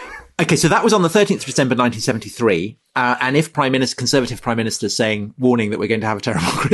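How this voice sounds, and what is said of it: Usual voice. Nothing is said of it.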